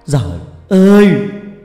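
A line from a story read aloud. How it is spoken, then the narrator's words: Pained, suppressed cry. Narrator (Vietnamese): Chú gắng nén nỗi đau, kêu lên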